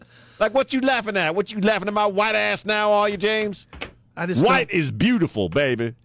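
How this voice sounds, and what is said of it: Put-on Black American speech. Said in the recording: “I'm just going to start talking like a black guy”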